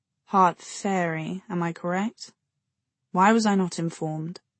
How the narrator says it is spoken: There was a murmur

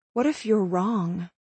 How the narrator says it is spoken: I asked quietly

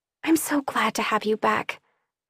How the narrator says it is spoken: I whispered

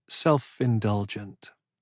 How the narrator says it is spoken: she said, but the words came out so softly, almost like a breath

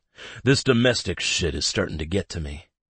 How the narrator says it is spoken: Zeke groans

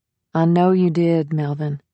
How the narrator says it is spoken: she said soothingly

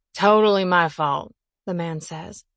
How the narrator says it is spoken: his words slurring

